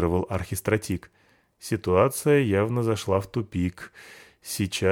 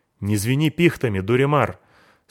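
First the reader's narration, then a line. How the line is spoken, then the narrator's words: Angry. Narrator (Russian): сказал я зло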